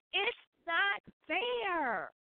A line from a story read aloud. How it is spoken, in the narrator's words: turned red, and he screamed at the top of his voice